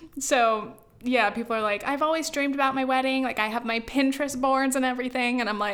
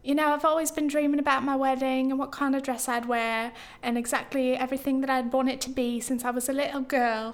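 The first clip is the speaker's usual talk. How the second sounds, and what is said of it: Bad exaggerated put-on accent. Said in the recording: “my accent, oh, it's so bad”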